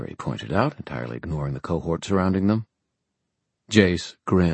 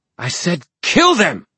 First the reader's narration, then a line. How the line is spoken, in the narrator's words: Manuel shouted